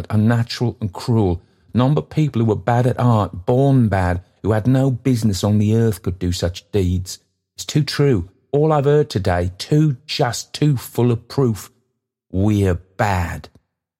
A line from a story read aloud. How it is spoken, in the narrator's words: Toby cried